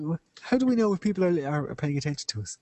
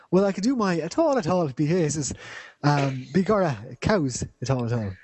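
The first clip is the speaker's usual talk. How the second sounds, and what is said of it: Stereotypical Irish accent. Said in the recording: “A proper stereotypical Irish accent.”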